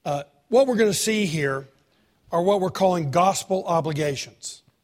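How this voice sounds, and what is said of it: Strained, unwell-sounding voice. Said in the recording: “Sorry about my voice... If your ears can stand it, my voice can stand it.”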